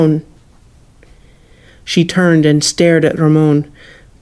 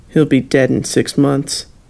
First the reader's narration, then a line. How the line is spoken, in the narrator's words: Ramon muttered